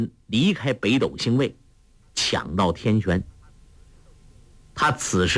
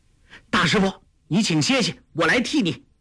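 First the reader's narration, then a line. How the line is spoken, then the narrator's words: Calling out. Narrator (Chinese): 郭靖见师父受挫，叫道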